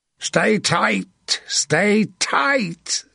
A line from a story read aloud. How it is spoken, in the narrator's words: Sir John bellowed